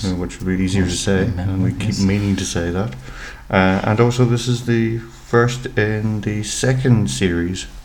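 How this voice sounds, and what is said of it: Irish accent. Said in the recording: “I'm ... the one with the Irish accent”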